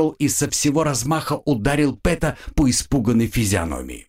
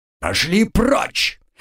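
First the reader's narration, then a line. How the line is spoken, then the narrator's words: Growl. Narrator (Russian): прорычал Мэй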